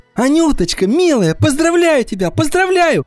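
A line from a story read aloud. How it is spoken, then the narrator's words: Shouting. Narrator (Russian): кричала Ирина Васильевна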